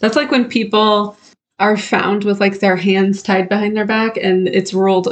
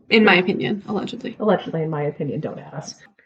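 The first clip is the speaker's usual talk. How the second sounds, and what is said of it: Whispering. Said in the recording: “I'm whispering a lot.”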